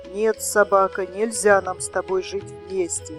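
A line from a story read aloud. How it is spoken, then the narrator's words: Grumbling deer. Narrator (Russian): заворчал олень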